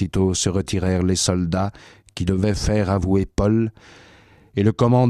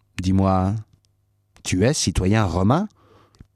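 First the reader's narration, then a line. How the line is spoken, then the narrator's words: Plain. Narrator (French): Paul répondit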